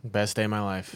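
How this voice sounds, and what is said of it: Flat monotone delivery. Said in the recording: “Sounds like it with that monotone.”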